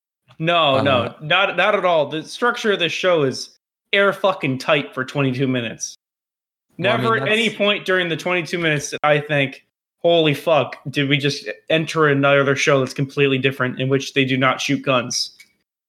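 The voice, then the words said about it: Sarcastic delivery. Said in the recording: “Are you being sarcastic? ... Yes, I'm being sarcastic.”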